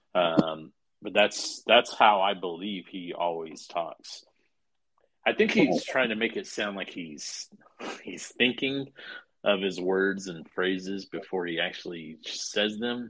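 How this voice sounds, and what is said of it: Slow, deliberate Johnny Depp-style speech. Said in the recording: “I'm just trying to slow down my speech to kind of match how Johnny Depp would talk ... he speaks really deliberately. And he's like over enunciating letters and words. And he's a slow talker.”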